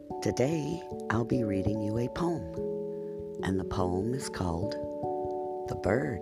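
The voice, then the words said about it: Rough, hoarse voice. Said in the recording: “my voice is a little rough today”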